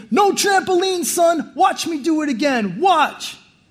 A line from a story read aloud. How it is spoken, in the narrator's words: He's screaming